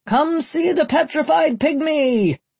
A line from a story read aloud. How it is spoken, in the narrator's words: the barkers cried